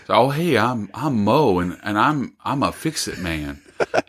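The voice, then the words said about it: Imitates a character's accent. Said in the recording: “I'm gonna try and do his accent, tell me if I'm doing a good job ... it's obviously he's lying with his accent”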